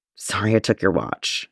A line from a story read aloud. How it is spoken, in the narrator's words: Jason muttered, voice wavering slightly